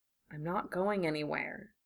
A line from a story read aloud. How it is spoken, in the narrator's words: Draco whispered